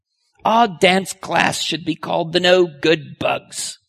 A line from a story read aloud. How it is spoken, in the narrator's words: Emily grumbled